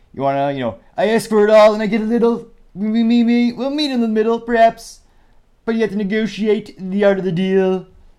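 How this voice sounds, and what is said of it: Poor imitation of another person's voice. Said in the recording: “Trump's the art of the deal ... that was pretty bad ... Was it the worst impression ever?”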